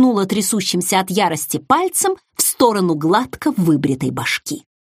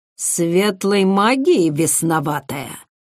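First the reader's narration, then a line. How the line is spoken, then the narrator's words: Quiet menacing voice. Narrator (Russian): тихим угрожающим голосом уточнил он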